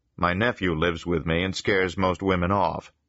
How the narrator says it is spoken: Steve said

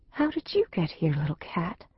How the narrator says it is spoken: she asked, gently

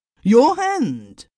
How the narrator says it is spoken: cried

